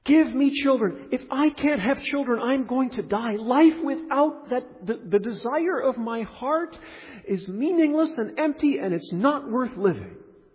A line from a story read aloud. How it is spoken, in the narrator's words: she shouts at Jacob